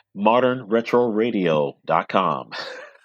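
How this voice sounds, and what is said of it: Smooth, sexy radio announcer voice. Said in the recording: “in your sexy radio voice”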